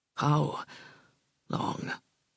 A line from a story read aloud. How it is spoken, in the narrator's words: rasped